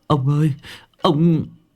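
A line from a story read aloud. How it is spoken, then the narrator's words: Trembling. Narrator (Vietnamese): Thằng Tý run rẩy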